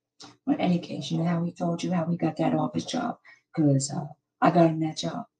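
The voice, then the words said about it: Hoarse voice. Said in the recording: “Excuse my hoarse voice. I've been screaming a little bit.”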